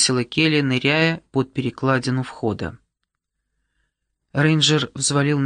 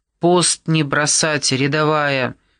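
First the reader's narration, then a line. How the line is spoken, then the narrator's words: Sergeant's bark. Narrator (Russian): рявкнул сержант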